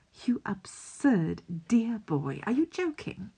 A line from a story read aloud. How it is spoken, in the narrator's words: He laughs, still warm